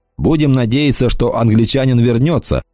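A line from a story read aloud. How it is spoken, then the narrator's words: Plain. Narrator (Russian): сказал Кикаха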